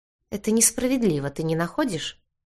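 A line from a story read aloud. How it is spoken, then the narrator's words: Calm question. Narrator (Russian): Спокойно переспросил гвардеец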